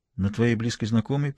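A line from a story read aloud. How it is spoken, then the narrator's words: Barely audible question. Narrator (Russian): переспросила она чуть слышно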